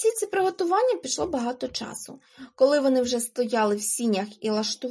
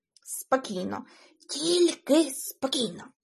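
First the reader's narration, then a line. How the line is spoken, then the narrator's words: Whisper. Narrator (Ukrainian): прошепотів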